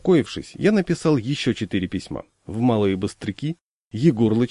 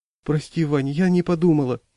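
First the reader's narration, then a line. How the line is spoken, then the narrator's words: Frightened. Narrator (Russian): испуганно сказала жена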